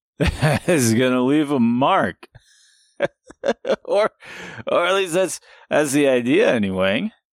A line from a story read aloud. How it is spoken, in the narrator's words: He laughed again